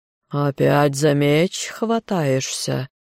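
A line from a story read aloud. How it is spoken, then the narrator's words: Hiss through teeth. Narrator (Russian): Горыныч прошипел сквозь зубы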